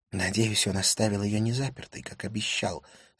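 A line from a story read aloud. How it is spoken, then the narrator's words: Whispered. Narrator (Russian): сказала она шепотом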